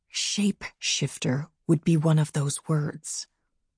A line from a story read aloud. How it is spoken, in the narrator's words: lowered my voice even more and said